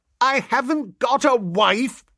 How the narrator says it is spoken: I yelled

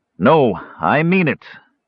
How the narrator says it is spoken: Tanis said firmly, his voice carrying over the noise

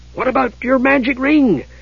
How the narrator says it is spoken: Tass asked eagerly

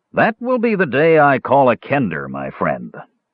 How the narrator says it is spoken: scoffed the dwarf

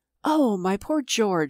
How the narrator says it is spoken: she exclaimed faintly

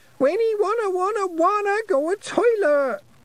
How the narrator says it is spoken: Wentworth shrieked

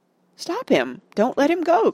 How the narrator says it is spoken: cried Pippin

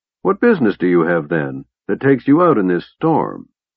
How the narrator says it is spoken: officer regarded the innkeeper coldly

